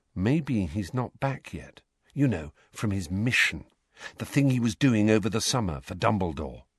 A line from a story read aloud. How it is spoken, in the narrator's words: Harry said very quietly, so that Neville, Parvati and Lavender could not hear